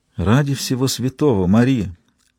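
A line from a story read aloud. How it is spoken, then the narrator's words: Muttered after a pause. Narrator (Russian): пробормотала Хелена после небольшой паузы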